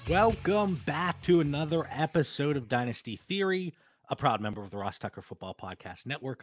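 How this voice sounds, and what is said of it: Congested, stuffed-up voice. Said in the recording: “As you can tell from my voice, I'm a little stuffed up. ... Just a little head cold”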